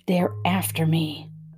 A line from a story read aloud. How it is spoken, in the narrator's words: whispered Janie, still smiling widely